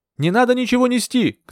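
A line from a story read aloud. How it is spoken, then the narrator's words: Shouted. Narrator (Russian): крикнула я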